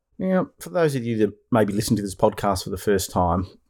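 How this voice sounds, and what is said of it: Australian accent. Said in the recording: “I'm coming to you from the land down under, Melbourne, Australia ... you can probably tell by my accent where I'm coming from”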